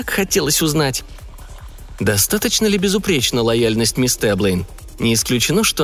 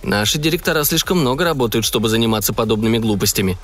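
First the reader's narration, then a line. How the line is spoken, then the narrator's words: Disapproving interruption. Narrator (Russian): неодобрительным тоном прервал ее Джонатан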